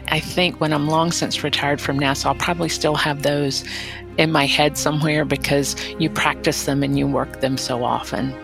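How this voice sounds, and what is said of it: South Carolina accent. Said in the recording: “probably the South Carolina accent”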